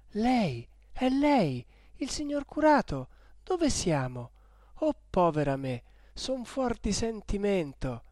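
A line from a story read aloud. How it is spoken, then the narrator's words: Exclaimed. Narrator (Italian): esclamò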